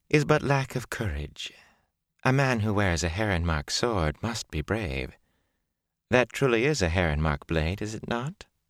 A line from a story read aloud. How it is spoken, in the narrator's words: Bellavere said sweetly